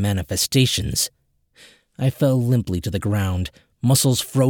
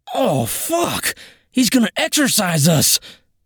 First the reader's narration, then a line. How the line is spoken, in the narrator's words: screeched on the precipice of losing my shit